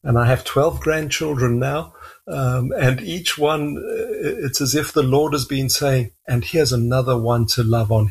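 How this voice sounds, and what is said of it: South African English accent. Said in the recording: “your accent is not what we would consider Canadian ... we immigrated to South Africa, and that's my accent”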